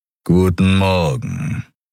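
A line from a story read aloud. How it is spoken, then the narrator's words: Expressionless growl. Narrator (German): knurrte er, ohne dass sein vernarbtes, halblindes Löwengesicht eine Miene verzog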